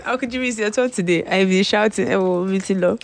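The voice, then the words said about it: Hoarse, worn-out voice. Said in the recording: “My voice is. My voice has gone.”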